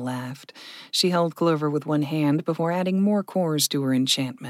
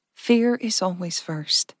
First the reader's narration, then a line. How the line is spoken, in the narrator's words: Verka said softly